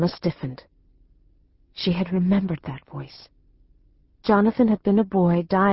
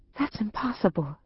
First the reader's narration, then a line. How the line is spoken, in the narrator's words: whispered, her voice shaking